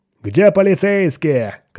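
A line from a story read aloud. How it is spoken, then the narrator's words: Miners shouting. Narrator (Russian): кричали шахтеры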